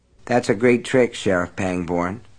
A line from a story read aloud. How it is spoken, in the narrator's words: Brian said in a colorless, emotionless voice